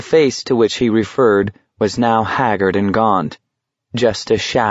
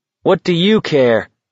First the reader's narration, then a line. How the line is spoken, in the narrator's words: McVries jeered